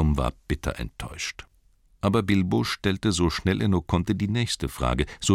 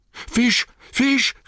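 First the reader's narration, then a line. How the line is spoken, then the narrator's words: Called out. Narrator (German): rief er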